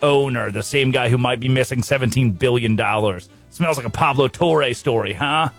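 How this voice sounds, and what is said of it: Usual voice. Nothing is said of it.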